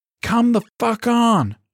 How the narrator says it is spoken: she bellowed

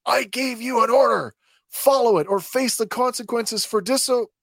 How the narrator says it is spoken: Governor Groton, who's quite animated, screeches at him

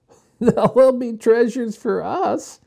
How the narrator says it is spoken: answered Jessie, laughing

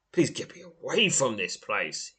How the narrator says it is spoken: croaks

